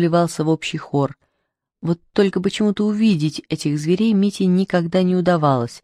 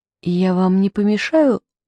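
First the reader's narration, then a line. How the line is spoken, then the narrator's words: Timid question. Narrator (Russian): робко спросил он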